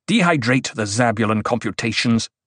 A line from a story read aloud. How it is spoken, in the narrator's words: Paul snapped